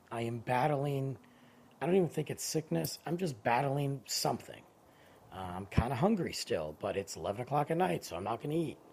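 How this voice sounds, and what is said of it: Strained, worn-out voice. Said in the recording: “my voice is going ... I'm tired”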